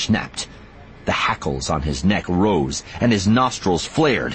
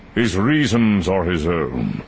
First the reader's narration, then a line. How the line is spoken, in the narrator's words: Dooku said smoothly